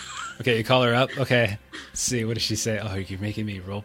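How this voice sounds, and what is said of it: Usual voice. Nothing is said of it.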